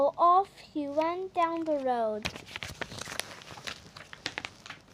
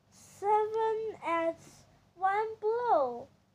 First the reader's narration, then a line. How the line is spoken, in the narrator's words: cried the king